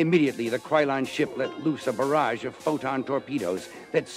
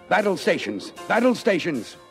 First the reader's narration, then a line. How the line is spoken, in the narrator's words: cried Champion